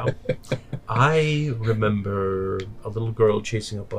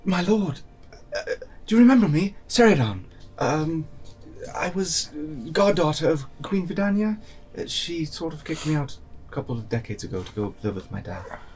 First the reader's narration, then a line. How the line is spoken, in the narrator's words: let out a little yelp, be like